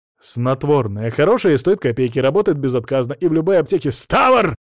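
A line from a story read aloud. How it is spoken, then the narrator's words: Barking. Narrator (Russian): рявкнул он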